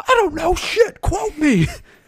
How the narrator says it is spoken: Johnny yells back

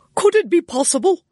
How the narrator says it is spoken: cried the lord-in-waiting

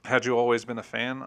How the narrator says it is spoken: I asked

